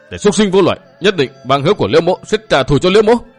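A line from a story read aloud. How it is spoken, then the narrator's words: Roaring. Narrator (Vietnamese): Trí Bình gầm lên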